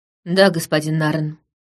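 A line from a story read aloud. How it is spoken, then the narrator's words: Gloomy. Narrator (Russian): ответил Лаурин мрачно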